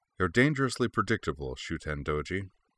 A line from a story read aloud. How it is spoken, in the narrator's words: he informed in a bored tone